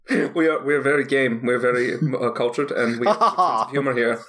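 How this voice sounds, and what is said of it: Put-on Scandinavian accent. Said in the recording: “Scandinavian, one of the few accents that you can do”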